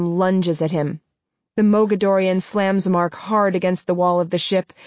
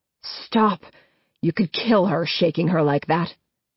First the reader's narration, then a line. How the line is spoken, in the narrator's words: Adam growls